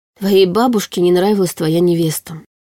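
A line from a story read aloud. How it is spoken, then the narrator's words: Sighing. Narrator (Russian): вздохнула Арина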